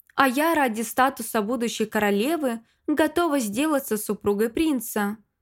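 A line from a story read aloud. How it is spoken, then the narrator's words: Pleasant voice, female contestant. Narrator (Russian): произнесла приятным голосом четвертая участница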